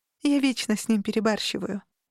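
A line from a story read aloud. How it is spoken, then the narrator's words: Sighing. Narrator (Russian): вздохнула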